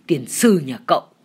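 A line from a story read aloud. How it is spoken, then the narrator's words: Annoyed shout. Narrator (Vietnamese): anh bực quá quát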